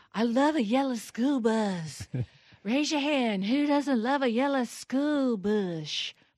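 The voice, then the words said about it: Impression of Kamala Harris. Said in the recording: “That's my imitation.”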